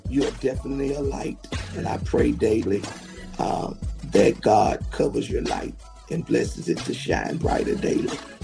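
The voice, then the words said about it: Congested, rough-sounding voice. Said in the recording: “excuse my voice. My sinuses are giving me and my voice, I know it's a little crazy right now.”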